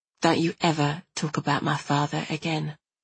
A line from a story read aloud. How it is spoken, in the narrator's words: said, very coolly, as if we were perfect strangers